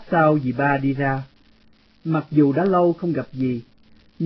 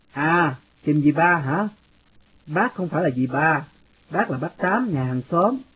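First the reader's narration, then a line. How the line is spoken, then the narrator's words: Smiling interruption. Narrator (Vietnamese): Người đàn bà mỉm cười ngắt lời tôi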